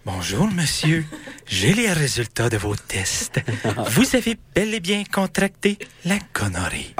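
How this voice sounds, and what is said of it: Man putting on a woman's voice. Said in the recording (French): “je vais prendre ma voix de femme ... avec ma voix”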